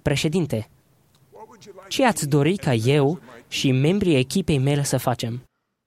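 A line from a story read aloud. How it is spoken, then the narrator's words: Quiet speech. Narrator (Romanian): spunându-i încet președintelui de țăruș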